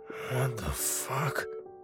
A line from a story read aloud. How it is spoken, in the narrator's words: mumbled to himself